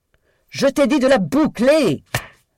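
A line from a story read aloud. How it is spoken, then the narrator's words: Yelled. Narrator (French): hurla Daisy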